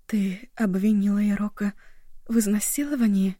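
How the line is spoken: Whisper. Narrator (Russian): прошептала Эва

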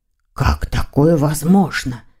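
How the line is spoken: Whispered. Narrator (Russian): прошептал

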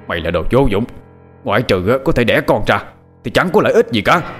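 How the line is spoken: Aggressive angry scolding. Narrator (Vietnamese): Ông Tuấn hùng hăng, giận dữ, quát mắng

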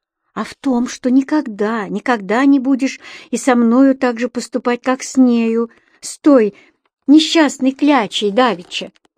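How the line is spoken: Barely audible reminder. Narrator (Russian): Еле слышно напомнила Таня

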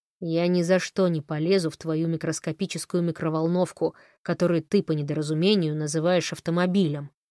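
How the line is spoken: Growling. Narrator (Russian): рычал он

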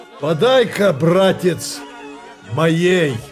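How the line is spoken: Loud. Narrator (Russian): громко сказал хозяину

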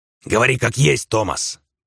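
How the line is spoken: Barking shout. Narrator (Russian): рявкнул Сальвати

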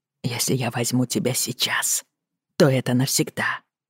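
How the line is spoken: Whispering. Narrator (Russian): прошептал Роджер

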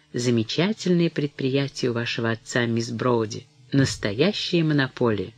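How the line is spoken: Smug, confidential tone. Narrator (Russian): сказал самодовольным и конфиденциальным тоном

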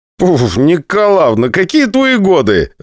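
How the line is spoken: Laughing along. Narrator (Russian): рассмеялся я вместе со всеми

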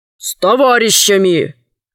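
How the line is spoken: Stern reply. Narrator (Russian): строго ответил глава города

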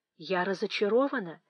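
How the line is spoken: Soft speech. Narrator (Russian): тихонько сказала Фанни Эдмонту

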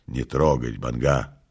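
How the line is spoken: Pained, sickly voice. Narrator (Russian): сказал прокуратор больным голосом

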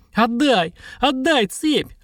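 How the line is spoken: Shrieking. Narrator (Russian): Анька визжала

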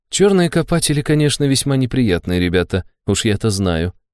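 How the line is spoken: Grim smirk. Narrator (Russian): мрачно усмехнулась Нера

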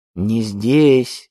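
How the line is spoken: Gruff mutter. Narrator (Russian): буркнул Эдуардо

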